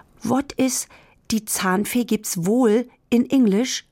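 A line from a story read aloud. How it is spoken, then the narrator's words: Plain. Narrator (German): fragte Luise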